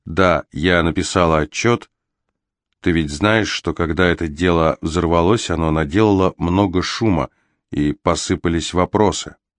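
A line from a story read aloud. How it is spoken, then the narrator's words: Quiet reply after pause. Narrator (Russian): Илана помолчала, потом тихо ответила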